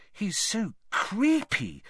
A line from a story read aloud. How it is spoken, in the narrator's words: Parvati whispered